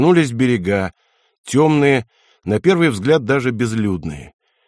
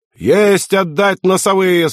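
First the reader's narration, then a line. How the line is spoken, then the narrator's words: Bosun yelling. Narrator (Russian): снова заорал боцман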